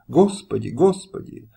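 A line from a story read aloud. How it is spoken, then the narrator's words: Sobbing exclamation. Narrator (Russian): Когда рыдания стеснили ей грудь, и она воскликнула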